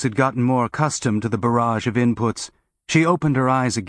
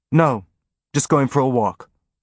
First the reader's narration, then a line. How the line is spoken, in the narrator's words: said